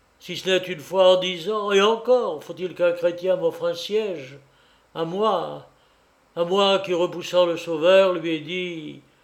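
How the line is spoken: Wanderer's weary sigh. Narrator (French): soupira l'homme errant

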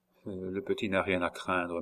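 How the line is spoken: Murmured. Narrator (French): murmura-t-il

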